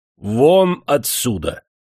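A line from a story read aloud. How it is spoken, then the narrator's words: Judge roaring in impotent rage. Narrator (Russian): судья, с бессильной злобой взревел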